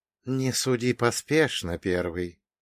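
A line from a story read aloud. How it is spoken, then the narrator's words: Soft rustling whisper. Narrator (Russian): тихо прошелестел великий уравнитель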